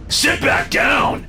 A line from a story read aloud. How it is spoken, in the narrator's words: David shouted